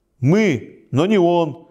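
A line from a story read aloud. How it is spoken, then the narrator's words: Shouting. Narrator (Russian): кричал Игого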